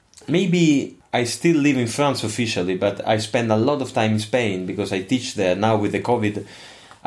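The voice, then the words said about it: Non-native English, Italian-sounding accent. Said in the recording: “when I'm I'm listening to you speaking English, I get the impression that you have some kind of Italian accent”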